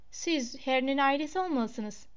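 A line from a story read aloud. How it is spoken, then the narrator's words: Plain. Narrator (Turkish): dedi Mrs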